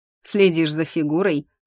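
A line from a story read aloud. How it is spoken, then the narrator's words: Snorting. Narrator (Russian): хмыкнул Норрис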